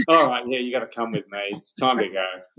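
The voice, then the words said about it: Australian-accented voice of Death. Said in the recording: “death probably has an Australian accent”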